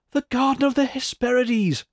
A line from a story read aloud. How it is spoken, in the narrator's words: cried one